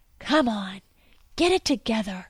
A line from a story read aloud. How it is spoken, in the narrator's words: Marshall whispered